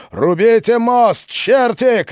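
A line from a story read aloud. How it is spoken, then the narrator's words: Shouted. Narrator (Russian): кричал Колычев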